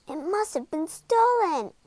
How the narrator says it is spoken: cried Scuba

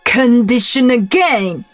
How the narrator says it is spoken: roared the king

